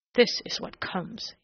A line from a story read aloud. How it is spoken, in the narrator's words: he muttered